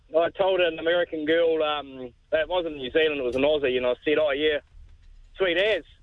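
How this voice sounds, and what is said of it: New Zealand accent. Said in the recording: “Are you from New Zealand? I'm from New Zealand. ... How'd your accent get in trouble?”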